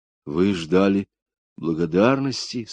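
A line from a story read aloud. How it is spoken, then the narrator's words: Quiet question. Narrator (Russian): спросил тихонько Билл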